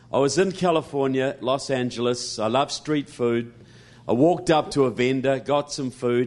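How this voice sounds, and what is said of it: New Zealand accent. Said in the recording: “you have an accent ... I'm from New Zealand”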